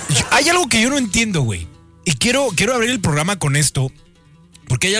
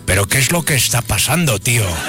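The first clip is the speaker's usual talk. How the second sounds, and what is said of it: Put-on Spanish (Spain) accent. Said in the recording (Spanish): “¿Cómo es el acento español? A ver, voy a intentarlo.”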